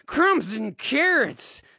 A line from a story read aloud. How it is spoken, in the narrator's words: cries Harry